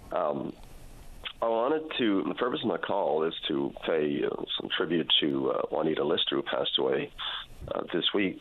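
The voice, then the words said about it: Voice slightly off, sounds unwell. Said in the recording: “My voice is a little off. I'm under the weather a bit there.”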